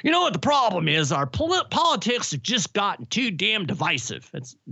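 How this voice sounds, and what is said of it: Old man voice. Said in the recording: “They were old, so this is my old man voice.”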